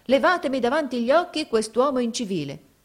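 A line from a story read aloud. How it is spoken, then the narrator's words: Woman's exclamation. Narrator (Italian): esclamò essa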